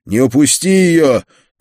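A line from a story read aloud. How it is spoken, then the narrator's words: Shouting after someone. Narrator (Russian): крикнул я вслед убегающему цыгану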